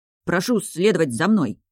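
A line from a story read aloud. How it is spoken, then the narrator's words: Strained, exhausted. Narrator (Russian): выдавил из последних сил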